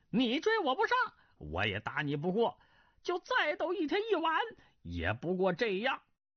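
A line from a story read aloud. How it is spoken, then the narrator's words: Laughing. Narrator (Chinese): 云中鹤笑道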